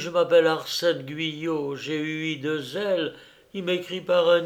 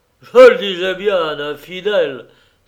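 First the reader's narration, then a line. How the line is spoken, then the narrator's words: Doctor exclaiming. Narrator (French): s'écria le docteur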